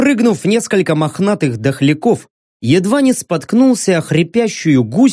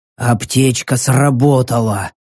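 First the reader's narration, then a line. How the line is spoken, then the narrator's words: Swordsman breathing out. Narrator (Russian): выдохнул мечник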